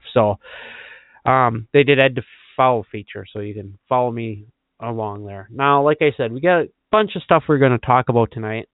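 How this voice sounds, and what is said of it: Raspy voice, occasional throat clearing. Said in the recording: “now I have to put up with my raspy voice and once in a while clearing the throat”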